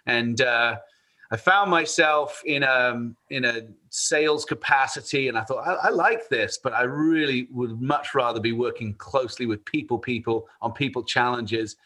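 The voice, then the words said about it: English accent. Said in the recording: “You obviously hear the accent here. ... I am from Bath, England, about 100 miles west of London”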